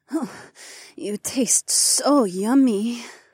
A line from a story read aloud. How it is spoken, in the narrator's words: Hei Wan moaned softly